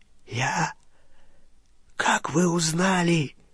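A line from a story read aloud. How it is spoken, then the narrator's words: Pleading rasp. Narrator (Russian): прохрипел Олливандер, с мольбой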